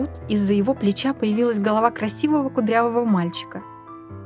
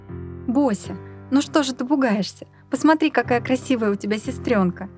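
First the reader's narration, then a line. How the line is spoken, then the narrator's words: Tender. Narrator (Russian): нежно произнесла мама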